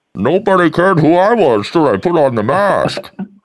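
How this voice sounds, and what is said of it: Bane impression. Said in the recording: “Bane. What a lovely voice. ... it was Sean Connery in a mask the whole time.”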